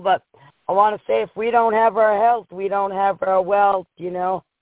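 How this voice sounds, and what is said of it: Hoarse, partly lost voice. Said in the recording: “I got a little bit of a lost my voice over here ... from cheering everybody on and just out here working in the cold”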